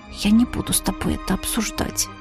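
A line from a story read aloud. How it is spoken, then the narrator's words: Embarrassed mumble. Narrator (Russian): Покраснев, как мака, в цвет, я вцепилась в подол платья и пробормотала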